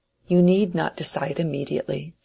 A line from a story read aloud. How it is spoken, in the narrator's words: she said gently